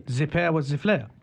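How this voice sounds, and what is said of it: Mock French accent. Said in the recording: “Maybe sounds good in French ... that is not French, but ... close French enough. Accent. ... Yeah, French accent.”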